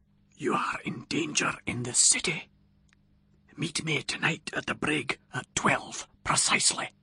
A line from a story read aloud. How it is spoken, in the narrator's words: a voice from behind me whispered distinctly in my ear